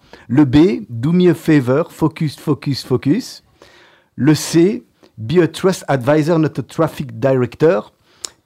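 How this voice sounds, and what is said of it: French-accented English. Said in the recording (French): “Pardon pour l'accent.”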